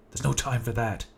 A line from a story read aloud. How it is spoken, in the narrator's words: shouted